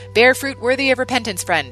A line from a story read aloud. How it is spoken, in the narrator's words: John shouted after the man